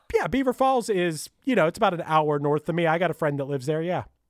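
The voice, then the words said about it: Thick Pittsburgh accent. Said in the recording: “I apparently have a very thick Pittsburgh accent, which people always comment on”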